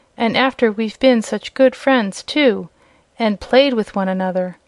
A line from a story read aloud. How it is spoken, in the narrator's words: exclaimed a piglet